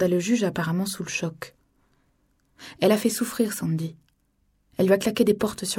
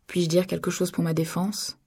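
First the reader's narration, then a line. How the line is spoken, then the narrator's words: Plain. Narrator (French): demanda le juge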